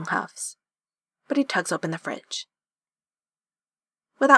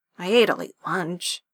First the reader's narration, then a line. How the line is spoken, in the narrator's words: grumbles